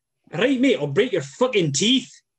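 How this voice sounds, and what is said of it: Put-on Scottish accent. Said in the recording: “And then a Scottish accent you probably know, but I'll give it a go ... That was good.”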